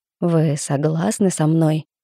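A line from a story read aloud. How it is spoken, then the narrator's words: Velvety, seductive hiss. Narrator (Russian): Бархатный голос Плетнева походил на шипение змеи-искусителя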